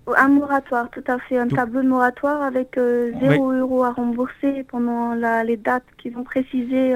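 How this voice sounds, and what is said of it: Speaks with a noticeable accent. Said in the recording (French): “vous avez un très joli accent”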